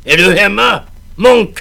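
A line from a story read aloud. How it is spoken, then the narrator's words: Screamed. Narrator (Swedish): skrek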